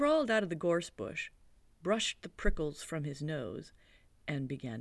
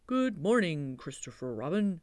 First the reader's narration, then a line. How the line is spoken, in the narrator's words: he said